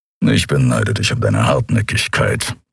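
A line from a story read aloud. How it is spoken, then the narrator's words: Grumbling. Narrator (German): brummte Keru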